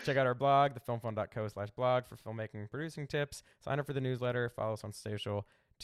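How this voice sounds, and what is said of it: Philadelphia accent. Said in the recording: “there's my Philly accent”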